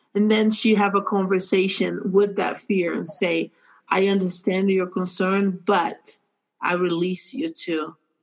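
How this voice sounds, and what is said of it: Speaks with an accent. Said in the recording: “I love your accent”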